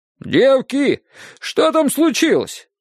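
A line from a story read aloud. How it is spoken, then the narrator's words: Shouted from another room. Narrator (Russian): крикнула из кухни тетя Маша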